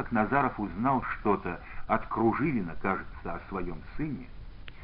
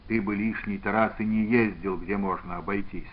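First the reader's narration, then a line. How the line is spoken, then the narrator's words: Plain. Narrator (Russian): сказал Иван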